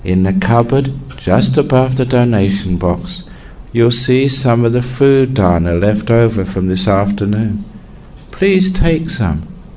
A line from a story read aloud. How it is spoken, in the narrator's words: said the abbot very kindly